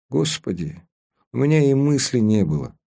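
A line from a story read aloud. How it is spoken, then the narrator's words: Sighing, almost guilty. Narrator (Russian): Она вздохнула, сказала почти виновато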